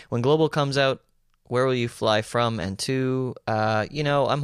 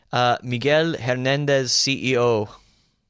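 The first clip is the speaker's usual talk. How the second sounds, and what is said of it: Put-on Hispanic accent. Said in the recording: “That's my best Hispanic accent.”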